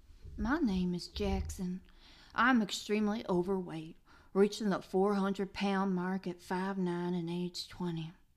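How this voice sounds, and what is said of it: Put-on Southern accent. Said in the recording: “if I could do a southern accent, I would... With a southern accent?”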